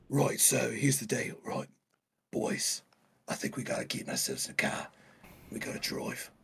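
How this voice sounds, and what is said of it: Jason Statham impression accent. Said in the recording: “try to look like Jason Stateman person ... you gotta do the accent now ... The accent.”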